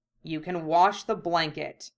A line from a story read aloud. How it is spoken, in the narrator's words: Hiei snapped